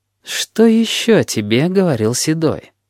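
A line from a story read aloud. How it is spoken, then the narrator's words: Insinuating question. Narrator (Russian): вкрадчиво спросил Волк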